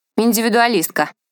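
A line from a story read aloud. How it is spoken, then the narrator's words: Snorting. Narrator (Russian): хмыкнула Лидочка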